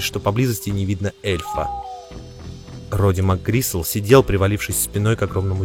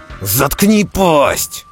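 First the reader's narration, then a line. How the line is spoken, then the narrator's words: Loud bark. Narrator (Russian): рявкнул МакГрисл громче, чем надо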